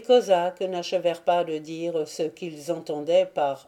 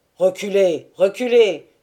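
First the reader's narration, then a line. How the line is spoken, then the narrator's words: Commander exclaiming. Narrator (French): s'écria le Kochevoï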